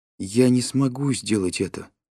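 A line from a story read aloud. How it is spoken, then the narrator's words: Sad. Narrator (Russian): печально произнесла Любовь Николаевна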